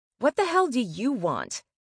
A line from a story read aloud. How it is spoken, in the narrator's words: I snapped